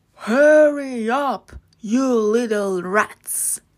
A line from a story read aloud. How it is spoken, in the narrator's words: He roared